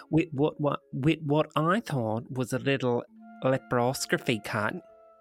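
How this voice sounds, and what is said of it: Put-on Australian accent. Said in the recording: “making me do an Australian accent”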